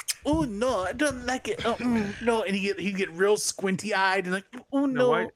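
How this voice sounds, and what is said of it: Put-on accent, imitating another person. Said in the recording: “Why you do the accent? ... I'm doing an impression of Carl Anderson doing an impression.”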